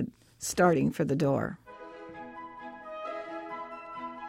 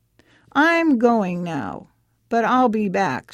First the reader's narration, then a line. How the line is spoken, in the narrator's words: she said